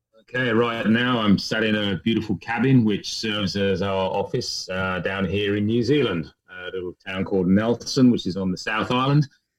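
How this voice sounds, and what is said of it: Faded English accent. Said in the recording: “enough of my English accent still left behind to prove that I'm what they call here a POM, or somebody who originally came from the UK”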